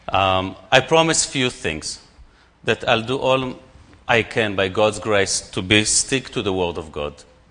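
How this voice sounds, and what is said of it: Non-native English accent. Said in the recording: “I have a different accent ... English is not my mother tongue”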